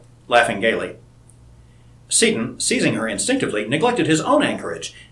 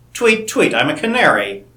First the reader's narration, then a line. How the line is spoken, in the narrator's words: chuckled Seton